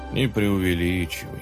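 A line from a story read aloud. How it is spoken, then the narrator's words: Calm. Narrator (Russian): спокойно ответил дедушка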